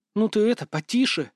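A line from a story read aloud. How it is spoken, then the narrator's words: Hissed. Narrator (Russian): зашипела на Андрея Сьюзен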